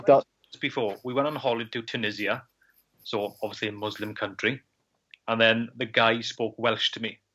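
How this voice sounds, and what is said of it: Strong Welsh-sounding accent. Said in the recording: “I got a stupid accent ... it's just a stupid accent ... never sure whether he's Welsh or Pakistani”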